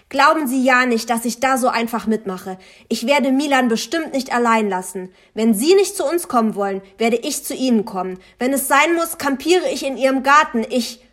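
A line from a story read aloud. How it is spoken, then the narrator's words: Screaming. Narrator (German): Ich schrie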